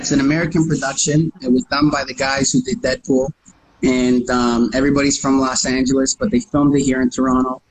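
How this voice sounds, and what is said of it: Slight New York accent. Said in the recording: “I got that little New York accent”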